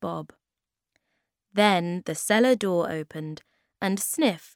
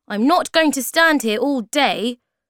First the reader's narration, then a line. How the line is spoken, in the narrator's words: said Sniff angrily